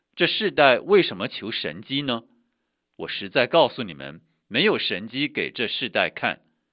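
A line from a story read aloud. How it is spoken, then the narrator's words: Deep sigh. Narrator (Chinese): 耶稣心里深深的叹息说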